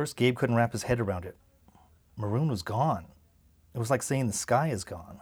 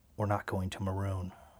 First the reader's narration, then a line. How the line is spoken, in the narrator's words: Mom leaned toward him and said, almost in a whisper